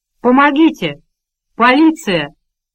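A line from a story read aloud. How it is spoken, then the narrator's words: Shouted. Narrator (Russian): закричал Роберт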